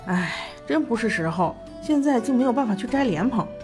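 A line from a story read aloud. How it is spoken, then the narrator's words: Muttering. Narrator (Chinese): 魏无羡咕哝道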